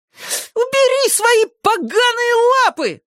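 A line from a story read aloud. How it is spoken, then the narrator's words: Shrieked. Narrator (Russian): завизжал Зак-потрошитель, яростно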